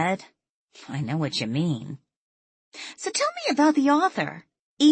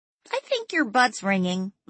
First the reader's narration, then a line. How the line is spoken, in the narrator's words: Lily chirped